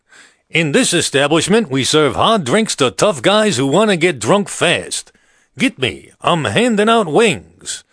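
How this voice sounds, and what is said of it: Imitates another person's voice. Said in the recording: “my modest impression of Sheldon Leonard at Martini's Bar”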